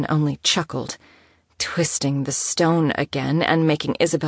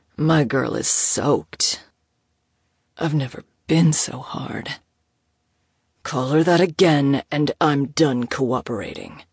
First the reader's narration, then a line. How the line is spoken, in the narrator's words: Moses growled, somehow sounding threatening while also barely audible